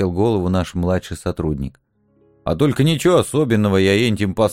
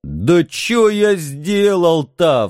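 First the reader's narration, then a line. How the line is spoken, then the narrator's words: Frustrated wailing. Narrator (Russian): взвыл, наконец, Митенька, видя, что на нас его спектакль не действует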